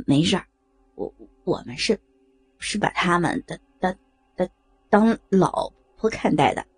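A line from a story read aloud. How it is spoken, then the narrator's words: Stammering. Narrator (Chinese): 刘涛结结巴巴地说着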